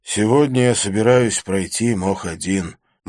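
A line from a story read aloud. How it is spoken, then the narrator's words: Gloomy announcement. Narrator (Russian): мрачно объявил Жан Брессон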